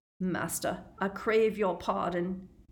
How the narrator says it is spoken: croaked the man

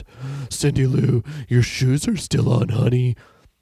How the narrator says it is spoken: she moaned

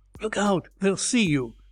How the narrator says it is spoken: whimpered Durkin

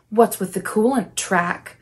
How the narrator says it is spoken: Van Helsing cooed

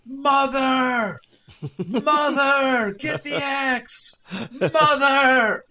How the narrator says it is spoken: from high in the sky, Jack is just screaming

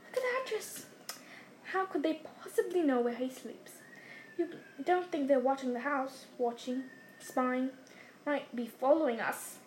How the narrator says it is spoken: muttered Uncle Vernon whitely

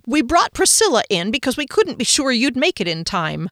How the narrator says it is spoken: Phoenix told me in a triumphant voice

